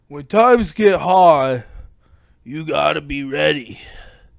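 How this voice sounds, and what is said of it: Gruff Sylvester Stallone impression. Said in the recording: “You gotta have it a little gruff ... Hi, I'm Sylvester Stallone ... my worst impression of anybody ever”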